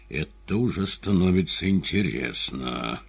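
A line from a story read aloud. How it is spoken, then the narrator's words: Hissed through teeth. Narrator (Russian): процедил сквозь зубы Варенуха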